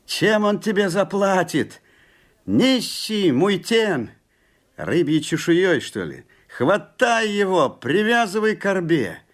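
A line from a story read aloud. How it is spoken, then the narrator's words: Crowd shouting. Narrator (Russian): Закричали муйтены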